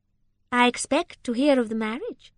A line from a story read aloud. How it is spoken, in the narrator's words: said Rosamond playfully